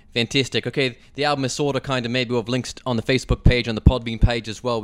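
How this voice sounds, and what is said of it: Put-on Australian accent, comes and goes. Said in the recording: “this ridiculous Australian accent ... it comes and goes ... some of it was really believable there”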